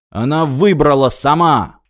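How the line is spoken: Barking. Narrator (Russian): рявкнул Мартин

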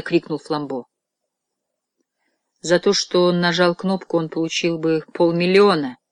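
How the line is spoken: Even, level voice. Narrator (Russian): продолжал низкорослый священник тем ровным голосом, которым он всегда говорил о страшных вещах

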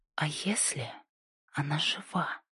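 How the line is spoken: Fearful whisper. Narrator (Russian): прошептала она, с трудом скрывая страх

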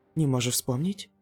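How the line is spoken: Frightened question. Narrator (Russian): испуганно спросила Цзянь Сяожоу

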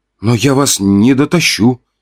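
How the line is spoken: Sighing. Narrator (Russian): вздохнул я

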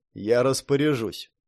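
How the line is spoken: Dry, curt. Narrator (Russian): сухо сказал Каллахан

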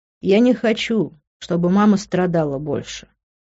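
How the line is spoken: Sighing. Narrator (Russian): вздохнув, сказал он

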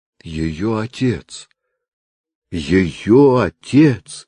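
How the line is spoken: Old doctor moaning. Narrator (Russian): простонал старик-врач

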